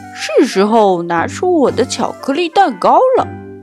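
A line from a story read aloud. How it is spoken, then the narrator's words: Laughing. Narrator (Chinese): 猪爸爸笑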